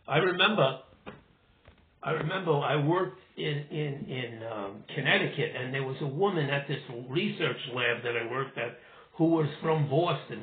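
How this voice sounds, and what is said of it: Brooklyn accent. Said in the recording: “idiomatic, Brooklynized, you know, version of my speech, which I have, you know, I still talk like that ... I have a Brooklyn accent”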